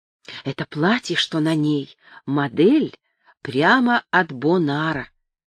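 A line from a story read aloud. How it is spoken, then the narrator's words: Confidential whisper. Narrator (Russian): конфиденциально шепнула она на ухо Джо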